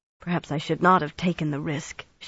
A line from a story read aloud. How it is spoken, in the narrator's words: muttered